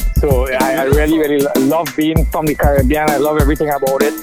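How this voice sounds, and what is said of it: Caribbean accent. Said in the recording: “my accent, I'm so proud of it ... the accent is always there ... I love your accent. It's beautiful.”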